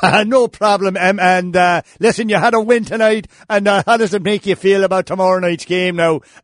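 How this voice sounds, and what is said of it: Put-on Irish accent. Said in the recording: “don't worry about my accent now. You're making fun of me.”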